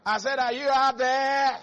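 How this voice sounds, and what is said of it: Loud, shouting preacher voice. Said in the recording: “My voice is louder than the whole church.”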